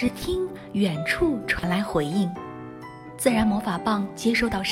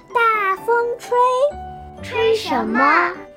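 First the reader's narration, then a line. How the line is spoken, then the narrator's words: Loud shout. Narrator (Chinese): 小精灵大声地喊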